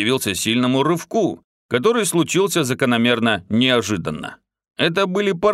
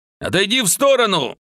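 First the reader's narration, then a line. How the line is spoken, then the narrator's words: Shout. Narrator (Russian): крикнул уже скинувший маску полковник Тарс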